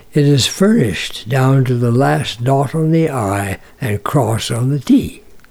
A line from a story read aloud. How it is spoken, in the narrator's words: he sighed